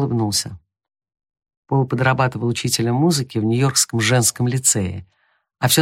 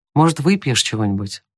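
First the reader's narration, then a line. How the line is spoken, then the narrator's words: Plain. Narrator (Russian): спросил Том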